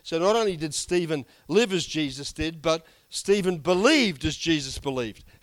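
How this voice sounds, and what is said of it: Strained, hoarse voice. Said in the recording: “I'm losing my voice. I was singing too loudly with the singing.”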